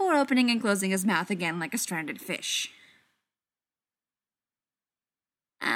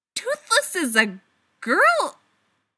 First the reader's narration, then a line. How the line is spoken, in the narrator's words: he manages to squeak